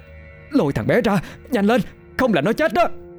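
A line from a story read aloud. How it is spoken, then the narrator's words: Urgent near-scream. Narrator (Vietnamese): cô vội vàng lên tiếng, âm thanh gần như thét lên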